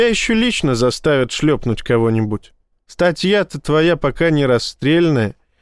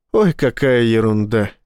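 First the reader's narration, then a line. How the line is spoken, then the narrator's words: Laughing. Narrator (Russian): рассмеялся начальник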